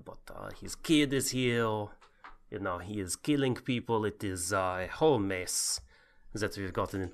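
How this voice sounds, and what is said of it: Put-on Viking accent, sounds French. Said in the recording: “your bloody accent. Oh my god. What are you trying to sound like there? Pepe Le Pew? ... It is the Viking. It is a historically accurate Viking. ... authentic Viking impression”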